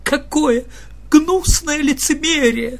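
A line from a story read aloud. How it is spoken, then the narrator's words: Girl speaking through tears. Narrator (Russian): Одна девочка даже заплакала и сказала сквозь слезы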